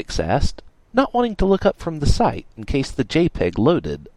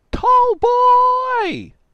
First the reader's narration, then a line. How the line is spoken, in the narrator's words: he exclaimed